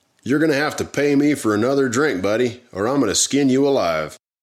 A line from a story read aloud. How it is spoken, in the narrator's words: one customer yelled out to Jack